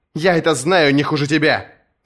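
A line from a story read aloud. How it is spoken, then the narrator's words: Sharp. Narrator (Russian): резко произнесла Серсея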